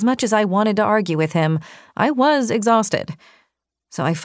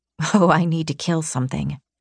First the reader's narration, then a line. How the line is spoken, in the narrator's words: I muttered